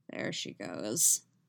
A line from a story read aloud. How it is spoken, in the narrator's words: he mutters